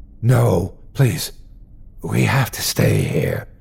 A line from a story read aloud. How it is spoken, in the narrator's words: Chris tried to whisper too